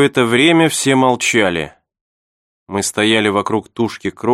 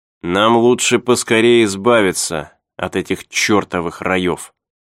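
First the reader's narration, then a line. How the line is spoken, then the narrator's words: Plain. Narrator (Russian): сказал Чарли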